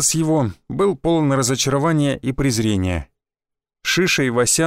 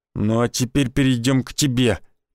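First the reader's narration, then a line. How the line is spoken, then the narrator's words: Hissed. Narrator (Russian): прошипел Никитич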